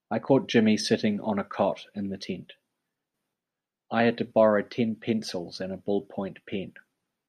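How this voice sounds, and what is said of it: New Zealand accent. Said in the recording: “from Auckland, New Zealand ... his pronunciation of tent as tent, and ten as tin, and pencils as pencils, and pen as pin, and egg as ig”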